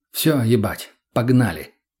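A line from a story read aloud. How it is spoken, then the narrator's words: Exhaled. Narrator (Russian): выдохнул я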